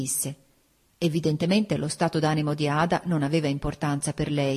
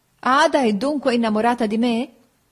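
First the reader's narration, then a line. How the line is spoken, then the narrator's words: Laughing. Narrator (Italian): feci ridendo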